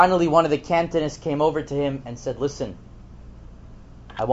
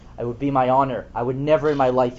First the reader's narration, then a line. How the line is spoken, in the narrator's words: said